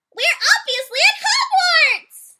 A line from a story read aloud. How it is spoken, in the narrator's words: Bree cheered extremely loudly